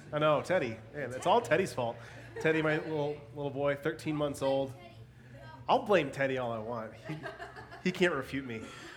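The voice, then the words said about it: Congested, stuffy sick voice. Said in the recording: “just in case I sound funny ... I'm sick yet again ... if I sound a little congested”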